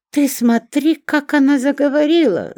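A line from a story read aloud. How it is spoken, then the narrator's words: Shouting. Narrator (Russian): закричала Шурка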